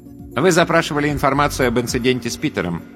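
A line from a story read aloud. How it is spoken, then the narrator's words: Plain. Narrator (Russian): сказала J-U-N-I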